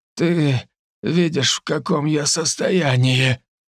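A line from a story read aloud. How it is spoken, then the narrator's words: Hoarse wheeze. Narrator (Russian): прохрипел адвокат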